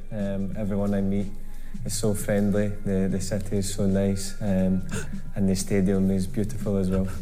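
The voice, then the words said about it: Slow, simplified English for foreign listeners. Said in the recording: “He's speaking like your dad when there's a problem in your hotel room in Spain.”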